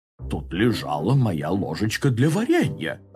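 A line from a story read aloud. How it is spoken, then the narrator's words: Confused mumble. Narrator (Russian): растерянно пробормотал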